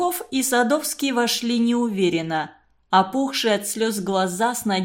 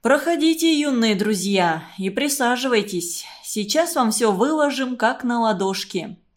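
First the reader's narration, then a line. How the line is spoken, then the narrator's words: Plain. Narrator (Russian): сказал Глушков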